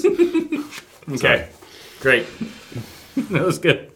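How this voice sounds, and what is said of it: Sarcastic delivery. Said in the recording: “That was sarcastic.”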